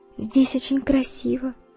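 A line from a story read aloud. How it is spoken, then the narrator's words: Whispered, woman. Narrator (Russian): прошептала Изольда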